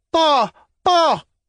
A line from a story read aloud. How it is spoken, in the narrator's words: cried the child